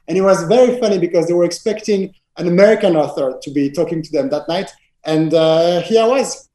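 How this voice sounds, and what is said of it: French accent speaking English. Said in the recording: “I started to speak in English with my French accent”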